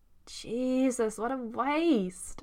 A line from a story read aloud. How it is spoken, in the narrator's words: Eddie groans